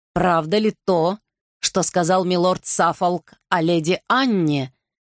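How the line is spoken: Growl. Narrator (Russian): прорычал Гарри

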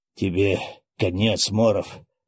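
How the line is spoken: Straining hoarse rasp. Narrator (Russian): прохрипел вновь, пытаясь подняться маэстро

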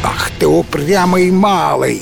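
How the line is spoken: Roaring laughter. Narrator (Russian): хохотал Гром

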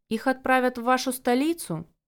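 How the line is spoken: Quietly speaking up. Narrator (Russian): тихо подала я голос

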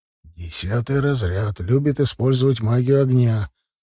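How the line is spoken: Quiet instruction. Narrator (Russian): успел тихонько проинструктировать меня Рухис

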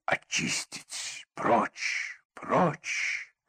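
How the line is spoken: Continuous muttering. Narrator (Russian): словно его вел кто-то, все бормотал

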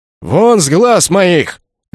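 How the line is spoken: Barked. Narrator (Russian): рявкнул Ракай

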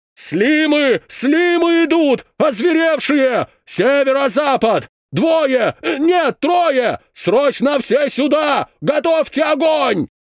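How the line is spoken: Shouting radio device. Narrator (Russian): Закричало устройство связи на поясе стража

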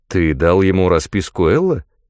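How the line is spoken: Plain. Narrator (Russian): спросил он

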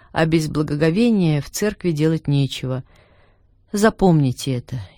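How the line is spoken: Quiet repetition. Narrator (Russian): тихо повторил

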